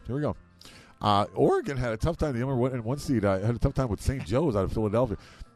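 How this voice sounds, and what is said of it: Hoarse, deep, fading voice. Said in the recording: “my voice is about gone ... sound like Barry White ... my voice is about ready to go here”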